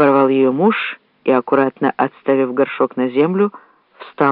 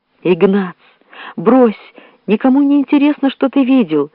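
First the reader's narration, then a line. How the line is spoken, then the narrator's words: Sobbing. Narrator (Russian): рыдала за его спиной жена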